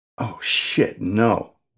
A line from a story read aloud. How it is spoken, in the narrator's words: one of the techs whispered